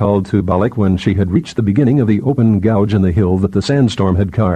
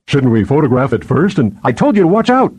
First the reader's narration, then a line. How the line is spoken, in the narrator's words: she said sharply